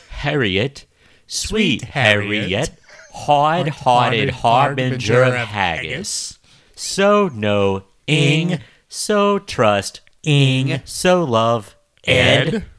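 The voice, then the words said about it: Put-on Scottish accent. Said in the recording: “he legit had the Scottish accent... none of us are great at doing a Scottish accent, but does it keep us from not trying? Or keep us from trying?”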